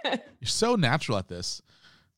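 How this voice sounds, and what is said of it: Sarcastic remark. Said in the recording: “I was being sarcastic.”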